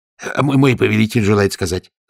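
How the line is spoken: Rapid chatter. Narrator (Russian): затараторил генерал

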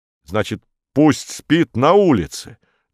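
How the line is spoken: Angry question. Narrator (Russian): злобно спросил Корнеев

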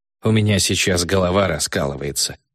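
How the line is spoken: Sighing. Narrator (Russian): вздохнул я

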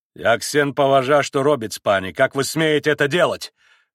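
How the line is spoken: Barking, angry. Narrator (Russian): рявкнул на Колганова и пан Врублевский

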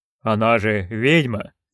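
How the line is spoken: Timid. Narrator (Russian): робко промолвил

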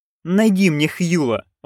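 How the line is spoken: Pleading. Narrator (Russian): взмолился он

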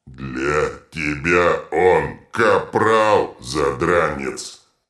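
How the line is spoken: Troll's growl. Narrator (Russian): рыкнул детрит

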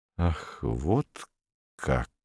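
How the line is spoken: Slow speech. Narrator (Russian): медленно произнес он

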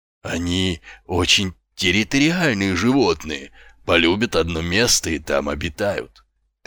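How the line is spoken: Reverent murmur. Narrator (Russian): трепетно пробормотала ее светлость

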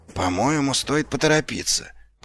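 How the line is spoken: Whisper. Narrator (Russian): прошептал Ваймс

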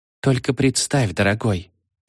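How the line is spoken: Purring. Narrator (Russian): промурлыкала она

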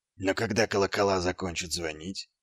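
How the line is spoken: Quiet. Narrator (Russian): тихо сказал Ваймс

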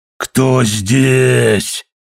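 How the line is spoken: Growl. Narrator (Russian): зарычал Билли

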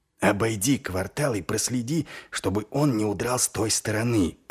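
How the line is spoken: Whispered. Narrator (Russian): прошептал он

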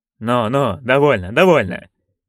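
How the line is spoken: Impatient grumble. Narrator (Russian): нетерпеливо буркнул герцог

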